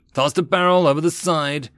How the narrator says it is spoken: yelled to the crew

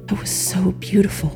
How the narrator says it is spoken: whispered

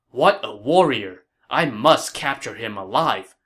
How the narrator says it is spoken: Cao Cao said

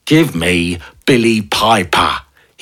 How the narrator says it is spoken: he shouted through the window

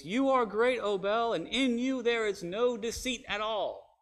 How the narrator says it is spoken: the king cried out in a loud voice

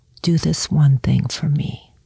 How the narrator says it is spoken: murmur in his ear

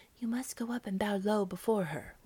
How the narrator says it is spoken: whispered the mother to her children

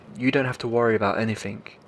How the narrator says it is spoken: Grandma said in her trembling voice

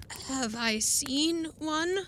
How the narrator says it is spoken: groaned Ritzky

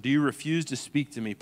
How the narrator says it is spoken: Pilate said

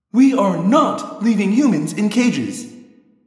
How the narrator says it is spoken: Cassie said angrily

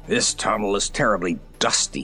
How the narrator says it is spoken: he growled angrily

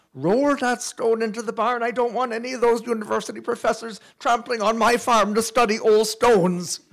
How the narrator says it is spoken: my old aunt cried out

